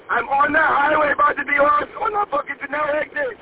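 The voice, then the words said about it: Screaming. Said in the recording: “Stop screaming. ... screaming is not helping”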